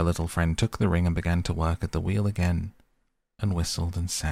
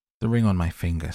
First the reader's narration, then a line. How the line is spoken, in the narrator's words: said she